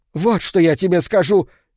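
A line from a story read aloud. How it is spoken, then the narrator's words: Old woman shouting. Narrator (Russian): крикнула старуха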